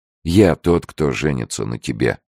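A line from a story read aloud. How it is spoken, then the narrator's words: Firm. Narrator (Russian): твердым голосом сказал он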